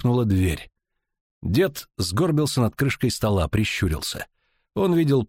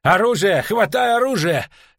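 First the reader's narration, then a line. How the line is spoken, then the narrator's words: Frantic shout. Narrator (Russian): лихорадочно крикнул Фрип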